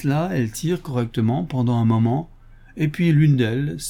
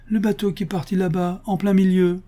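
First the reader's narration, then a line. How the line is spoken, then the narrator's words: Exclaiming. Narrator (French): s'écrie-t-elle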